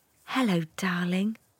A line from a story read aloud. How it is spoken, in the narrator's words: whispered Mum